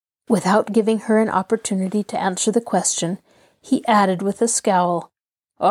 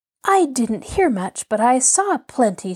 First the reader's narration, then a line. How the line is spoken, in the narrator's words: she cried